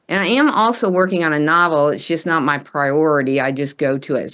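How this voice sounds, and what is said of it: Texas accent. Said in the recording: “I'm just detecting the accent. Tell us, what's the origin of your accent... Well, Texas, okay. Originally”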